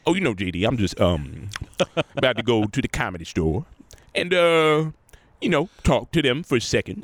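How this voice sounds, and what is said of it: Impression of speaker's father. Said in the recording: “I do a voice of it. I do his impression”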